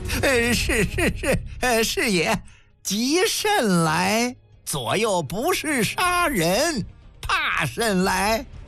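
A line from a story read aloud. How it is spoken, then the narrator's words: Laughing. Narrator (Chinese): 一边笑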